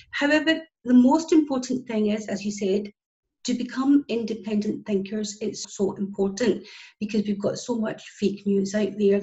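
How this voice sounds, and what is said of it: Scottish accent. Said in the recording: “as you can tell by my accent, I'm from Scotland”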